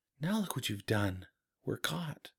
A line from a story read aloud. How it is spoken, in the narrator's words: whispered Juliana